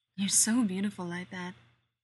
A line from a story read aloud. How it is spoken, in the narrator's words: he says